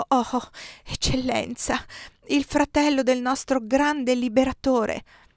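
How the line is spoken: Stammered. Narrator (Italian): Balbettò

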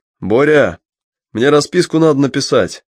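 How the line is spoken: Shouting over music. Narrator (Russian): крикнул Вадик громче музыки

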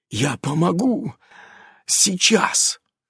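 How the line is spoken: Whispered. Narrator (Russian): шептал Иннокентий

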